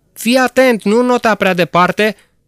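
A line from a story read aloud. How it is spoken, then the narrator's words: Warning shout. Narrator (Romanian): i-am strigat noi prevenitor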